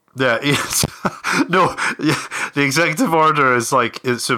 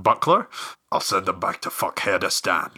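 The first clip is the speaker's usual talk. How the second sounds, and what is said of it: Gerard Butler impression. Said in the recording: “they say something in their accent. So Gerard Butler's like,”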